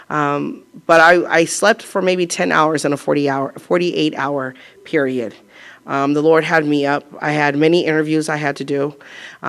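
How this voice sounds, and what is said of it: Strained, partly lost voice. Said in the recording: “I lost my voice ... I'm still struggling to get my voice back. It's normal, but not fully there.”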